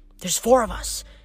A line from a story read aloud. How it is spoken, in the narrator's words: Hedge whispered urgently